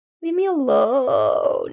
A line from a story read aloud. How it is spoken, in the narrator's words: moans helpfully